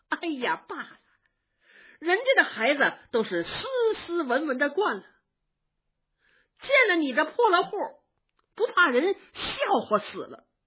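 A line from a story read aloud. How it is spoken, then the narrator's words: Laughing. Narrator (Chinese): 尤氏笑着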